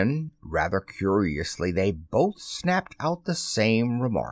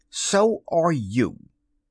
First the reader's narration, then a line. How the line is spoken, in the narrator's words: he retorted hotly